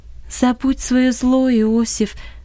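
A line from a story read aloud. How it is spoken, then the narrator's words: Calm but insistent. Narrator (Russian): сказала Долорес спокойно, но настойчиво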